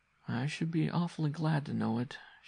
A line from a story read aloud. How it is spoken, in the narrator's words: she said wearily